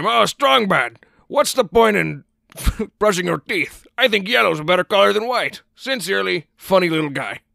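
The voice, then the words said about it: Cartoon character voice impression. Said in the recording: “who does a better Strong Bad impression? ... I haven't done a Strong Bad impression in so many days”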